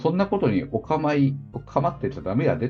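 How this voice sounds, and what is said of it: Put-on Kansai dialect. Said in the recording (Japanese): “関西弁で”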